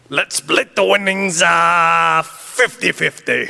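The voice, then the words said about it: Watto character impression. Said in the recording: “Okay, Watto.”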